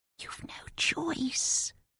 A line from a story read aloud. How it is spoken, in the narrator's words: Mary whispered